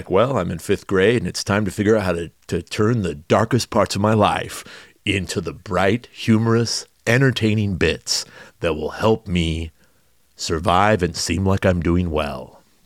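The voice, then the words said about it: Imitates a fifth grader's voice. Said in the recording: “my fifth grader impersonation.”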